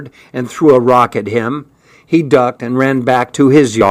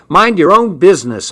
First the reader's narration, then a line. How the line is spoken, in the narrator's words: I yelled